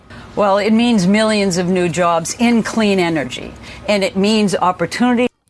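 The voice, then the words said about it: Strong Boston Dorchester accent. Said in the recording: “it's done in such a Dorchester accent that it's a rarity”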